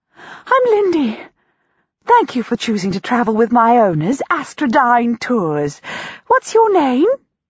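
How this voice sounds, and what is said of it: Enthusiastic, squeaky, breathless voice. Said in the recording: “The cocoon squeaks breathlessly. ... She sounds enthusiastic.”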